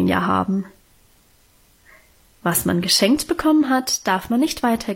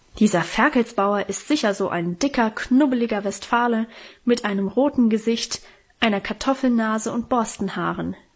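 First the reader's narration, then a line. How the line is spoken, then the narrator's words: Called out. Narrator (German): rief Karl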